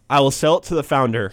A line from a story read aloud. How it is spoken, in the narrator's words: said